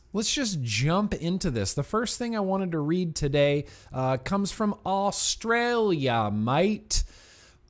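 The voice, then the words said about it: Bad fake Australian accent. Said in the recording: “That was me doing an impersonation of Kevin Malone from The Office doing his impersonation of a Australian accent ... he couldn't do it. All he just kept saying was mate”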